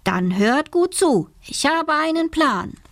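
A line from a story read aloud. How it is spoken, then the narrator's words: Calling out. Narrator (German): ruft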